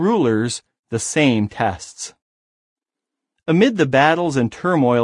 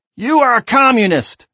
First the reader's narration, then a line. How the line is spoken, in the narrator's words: screamed the commander